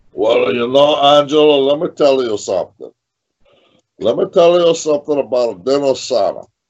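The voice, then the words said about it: Imitates another person's voice. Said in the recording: “I love your Dino impression. You do a spot on Dino Sada.”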